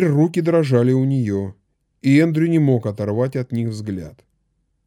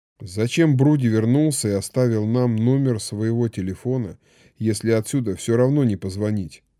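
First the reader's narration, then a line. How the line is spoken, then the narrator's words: Muttered. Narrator (Russian): пробормотала она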